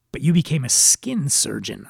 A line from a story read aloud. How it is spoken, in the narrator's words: I replied